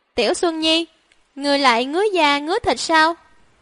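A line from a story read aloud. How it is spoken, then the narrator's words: Smiling, dark and sly. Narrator (Vietnamese): Chủ tử nhà hắn mỉm cười, tủm tỉm âm trầm nhìn hắn, nói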